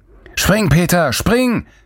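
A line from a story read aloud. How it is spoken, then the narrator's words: Distant bellow. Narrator (German): brüllte Lorenz von der anderen Seite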